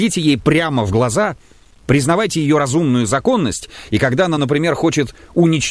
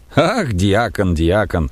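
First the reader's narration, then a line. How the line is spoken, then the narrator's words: Laughing. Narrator (Russian): засмеялся зоолог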